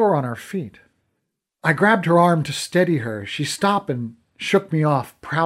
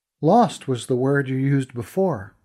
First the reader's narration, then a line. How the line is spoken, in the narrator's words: I said as gently as I could